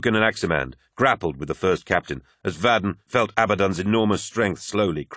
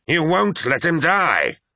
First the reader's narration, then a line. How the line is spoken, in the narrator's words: snarled Abaddon, and Vadon was amazed to see a terrible fear in the First Captain's eyes